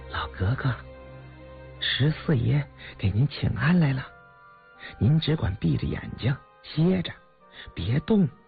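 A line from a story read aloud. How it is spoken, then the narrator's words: Maid whispering. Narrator (Chinese): 一个贴身宫女 便向十七皇姑耳畔小声的说道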